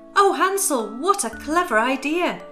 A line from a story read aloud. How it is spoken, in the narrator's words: exclaimed